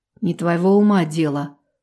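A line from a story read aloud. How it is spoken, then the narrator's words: Menacing growl. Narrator (Russian): угрожающе рыкнул Иван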